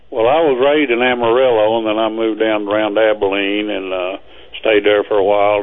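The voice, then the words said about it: Texan accent. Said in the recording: “Which part of Texas are you from? ... don't ever lose that accent. Don't lose that accent. Hang on to it”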